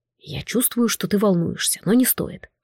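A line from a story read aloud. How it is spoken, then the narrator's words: Whispering. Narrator (Russian): шепнул герцог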